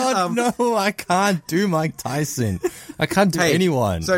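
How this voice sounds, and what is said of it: Usual voice. Nothing is said of it.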